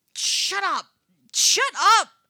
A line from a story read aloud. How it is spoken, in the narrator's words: Eddie yells